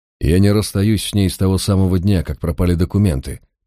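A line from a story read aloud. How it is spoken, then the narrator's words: Grumbling mutter. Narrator (Russian): пробурчал Мальверер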